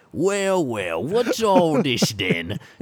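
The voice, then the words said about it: Aggressive put-on British accent. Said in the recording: “Just really getting aggressive with a ... British ... accent”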